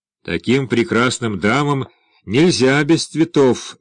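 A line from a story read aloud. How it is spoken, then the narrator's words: Loud. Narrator (Russian): громко сказал Дмитрий Григорьевич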